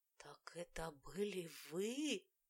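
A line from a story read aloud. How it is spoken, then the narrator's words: Strained, forced out. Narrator (Russian): с трудом выдавила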